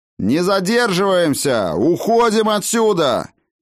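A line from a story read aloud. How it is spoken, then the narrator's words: Shouted. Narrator (Russian): крикнул, наконец, Хаген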